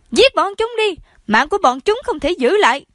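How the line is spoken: Furious screaming, stamping. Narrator (Vietnamese): Hoàng hậu toàn cơ vừa dậm chân vừa thét lên

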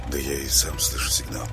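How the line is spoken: Whispered reply. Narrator (Russian): прошептал в ответ Саня

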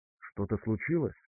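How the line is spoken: Whispered question. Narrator (Russian): шепотом спросила Варга

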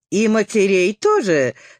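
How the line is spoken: Triumphant question. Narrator (Russian): спросила день недели торжествующим голосом

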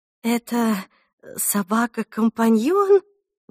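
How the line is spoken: Uncertain question. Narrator (Russian): неуверенно спросила Мод

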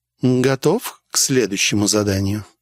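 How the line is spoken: Plain. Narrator (Russian): спросила мадам

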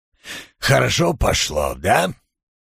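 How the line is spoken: Muffled, through teeth. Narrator (Russian): Он уткнулся пятаком в рукав и процедил

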